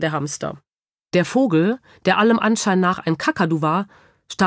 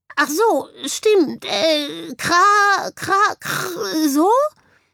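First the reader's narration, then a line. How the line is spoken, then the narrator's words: Croaking bird. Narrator (German): krächzte daraufhin der Vogel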